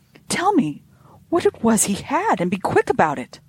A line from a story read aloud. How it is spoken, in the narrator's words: I cried, unable to bear the suspense any longer